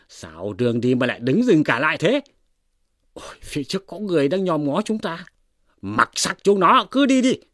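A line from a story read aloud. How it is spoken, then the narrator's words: Shouting. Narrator (Vietnamese): Hoàng Tín quát lên rằng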